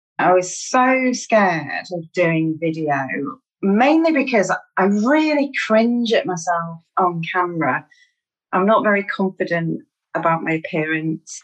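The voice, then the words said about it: Mancunian northwest English accent. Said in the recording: “There's a whole regional accent thing ... I'm from Manchester in the northwest of England. I'm a Mancunian. ... I still feel really self-conscious about my accent”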